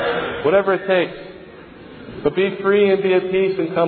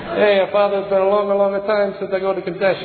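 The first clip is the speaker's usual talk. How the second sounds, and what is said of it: Put-on disguising accent. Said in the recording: “you can use an accent if you want when you're speaking behind the grill”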